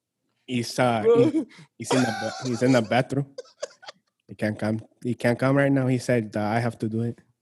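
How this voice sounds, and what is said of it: Put-on accent. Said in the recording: “keep that fucking accent the entire time”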